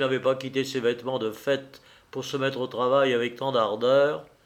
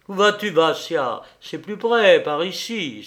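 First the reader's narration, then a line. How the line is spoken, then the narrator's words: Exclaiming. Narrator (French): s'écria-t-il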